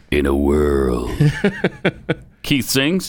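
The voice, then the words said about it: Dramatic movie trailer announcer voice. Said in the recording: “Movie trailer voice?”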